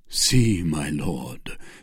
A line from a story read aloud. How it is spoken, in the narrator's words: said he in a deep, gloomy tone